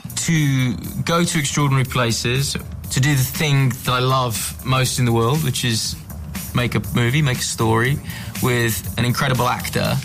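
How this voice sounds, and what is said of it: British accent. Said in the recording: “his accent. So he's clearly British”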